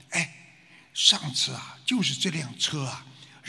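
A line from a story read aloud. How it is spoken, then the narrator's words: Soft woman's voice. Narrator (Chinese): 那个女的呢，轻声的说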